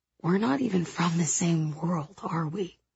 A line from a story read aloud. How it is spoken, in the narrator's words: I whisper